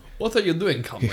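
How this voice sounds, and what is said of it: Put-on heavy Russian accent. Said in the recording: “He's like heavily like Russian or something. ... Nailed it.”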